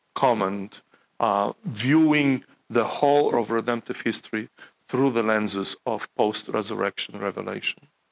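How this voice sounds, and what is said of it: Non-native English accent. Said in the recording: “you're slowly getting used to my accent and pronunciation”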